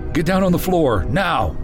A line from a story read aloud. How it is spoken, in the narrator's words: their leader yelled